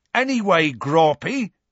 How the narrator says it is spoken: shouted Hagrid

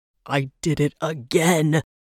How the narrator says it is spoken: he growled from behind his fingers

